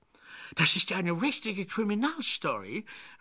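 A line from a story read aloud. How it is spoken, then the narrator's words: Excited exclamation. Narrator (German): rief Kathy aufgeregt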